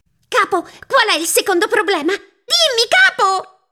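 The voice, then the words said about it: Shrill, high-pitched little voice. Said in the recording (Italian): “Strillò lei con una vocina acuta”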